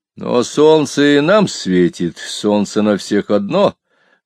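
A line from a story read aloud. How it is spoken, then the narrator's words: Grim joke. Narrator (Russian): мрачно пошутил я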